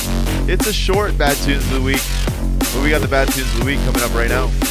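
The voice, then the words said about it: Strained, failing hoarse voice. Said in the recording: “My voice is going, obviously”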